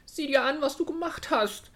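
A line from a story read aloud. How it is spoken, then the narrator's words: Calling out. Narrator (German): rief sie dem Wildschwein zu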